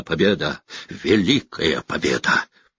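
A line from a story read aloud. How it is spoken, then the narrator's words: Hoarse shouting herald. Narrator (Russian): Вестник хрипло выкрикивая с коня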